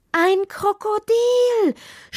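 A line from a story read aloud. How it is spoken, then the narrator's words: Frantic scream. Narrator (German): schrie vollkommen außer sich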